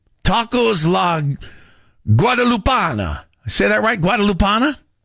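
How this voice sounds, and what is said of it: Put-on Italian accent. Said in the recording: “What am I saying with an Italian accent?”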